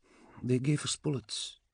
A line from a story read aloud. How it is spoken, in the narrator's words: she said softly